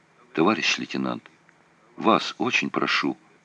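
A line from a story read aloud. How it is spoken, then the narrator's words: Barely voiced whisper. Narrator (Russian): прошептал он одними губами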